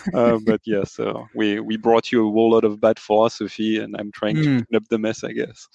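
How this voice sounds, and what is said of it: French accent. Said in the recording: “The French accent, you know, covers many sins there.”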